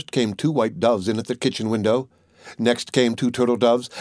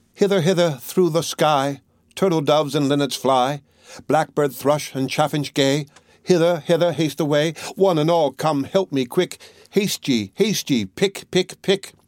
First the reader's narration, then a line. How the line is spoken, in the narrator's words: the little maiden cried out as before